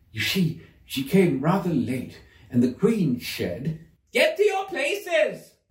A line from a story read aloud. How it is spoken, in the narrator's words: shouted the queen in a voice of thunder